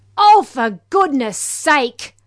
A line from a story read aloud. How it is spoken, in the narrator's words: yells Father Knott